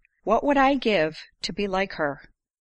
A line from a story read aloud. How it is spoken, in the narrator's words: Teresa sighed